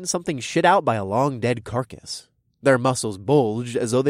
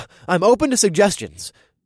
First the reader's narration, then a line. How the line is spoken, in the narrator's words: I grunted